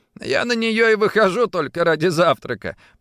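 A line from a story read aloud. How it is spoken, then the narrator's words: Playful, with a wink. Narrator (Russian): подмигнул Саймон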